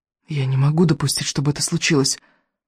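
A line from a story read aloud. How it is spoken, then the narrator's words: Whisper. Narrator (Russian): прошептал Икинг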